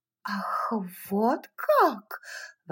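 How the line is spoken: Puzzled exclamation. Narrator (Russian): воскликнула она, совершенно озадаченная

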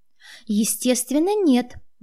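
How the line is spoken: Louder, feigned indignation. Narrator (Russian): воскликнула я чуть громче, изобразив негодование

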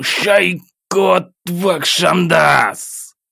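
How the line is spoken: Angry growl, just awakened. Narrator (Russian): Злобно рыкнул в темноту, внезапно очнувшись в своей постели в холодном поту

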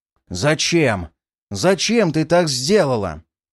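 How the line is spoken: Angry growl. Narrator (Russian): Прорычал я, злобно

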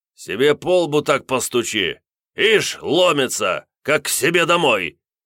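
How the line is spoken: Barking from behind door. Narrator (Russian): Рявкнул за дверью староста

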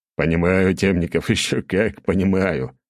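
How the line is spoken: Chuckling. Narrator (Russian): хохотнул

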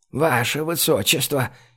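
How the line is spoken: Frightened whisper. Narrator (Russian): испуганно зашептала Лимми

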